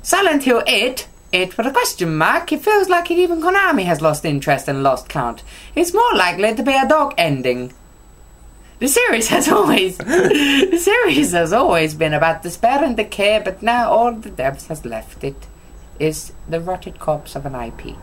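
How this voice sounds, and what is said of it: Odd put-on Italian accent. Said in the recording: “what accent that was... Italian... it came out Italian... It came out fucking weird, mate... Super Mario would hate you now”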